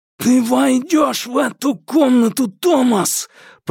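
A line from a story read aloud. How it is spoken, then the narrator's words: Hoarse rasp into ear. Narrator (Russian): прохрипел новичок ему в ухо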